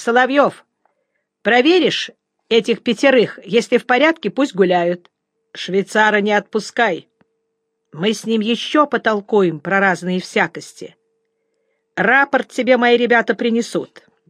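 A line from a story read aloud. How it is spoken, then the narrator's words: Shouted order. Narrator (Russian): крикнул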